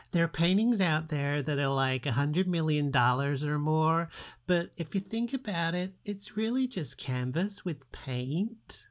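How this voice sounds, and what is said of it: Paris Hilton impression. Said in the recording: “do my best Paris impersonation”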